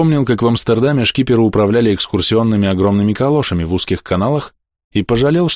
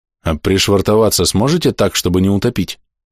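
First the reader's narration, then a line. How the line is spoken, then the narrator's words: Plain. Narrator (Russian): спросил я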